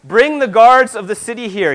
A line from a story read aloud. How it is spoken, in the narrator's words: call out in a loud voice